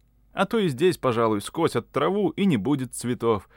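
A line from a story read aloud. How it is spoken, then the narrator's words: Cheerful shout. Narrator (Russian): закричал я, весело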